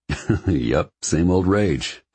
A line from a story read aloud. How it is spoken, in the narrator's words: I chuckle